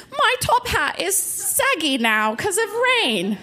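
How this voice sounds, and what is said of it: Put-on British accent. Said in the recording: “That's my best British accent.”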